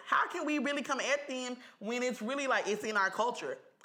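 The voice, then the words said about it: Imitates another person's voice. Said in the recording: “do my trainer voice.”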